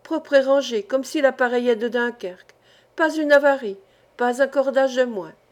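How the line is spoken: Exclaimed. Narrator (French): s'écriait-il

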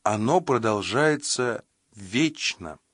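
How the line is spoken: Plain. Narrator (Russian): сказала продавщица

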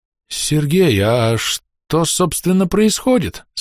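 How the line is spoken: Confused question. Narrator (Russian): спросил он растерянно

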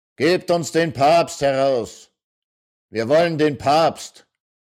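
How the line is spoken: Broad-chested woman bellowing. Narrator (German): Brunhilde, die breitbrüstige, brüllt

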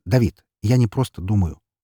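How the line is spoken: Sharp interruption. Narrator (Russian): резко перебил я его

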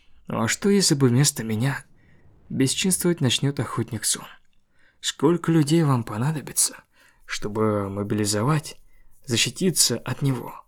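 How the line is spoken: Plain. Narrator (Russian): спросил Уджинчоль

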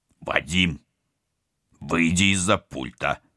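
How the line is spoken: Stern command. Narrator (Russian): строго приказал капитан

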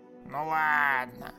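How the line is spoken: Drawn-out drawl. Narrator (Russian): протянул коп

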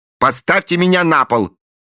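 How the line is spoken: Angry. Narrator (Russian): сердито сказала она

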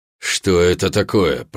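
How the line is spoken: Growling. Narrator (Russian): прорычал Карл

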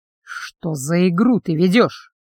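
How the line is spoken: Hissed through teeth. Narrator (Russian): процедил сквозь зубы

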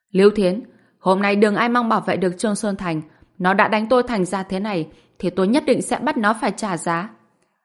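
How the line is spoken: Loud shout. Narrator (Vietnamese): Dương Đông hét lớn

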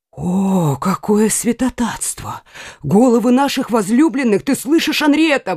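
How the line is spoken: Exclaiming. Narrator (Russian): воскликнула Маргарита

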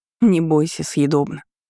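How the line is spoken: Snorting. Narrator (Russian): хмыкнула я

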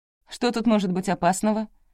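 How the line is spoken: Asked rather sharply. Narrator (Russian): довольно резко спросила она

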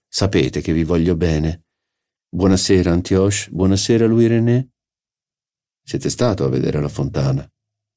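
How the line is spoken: Assertive question. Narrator (Italian): mi chiese in tono più affermativo che interrogativo

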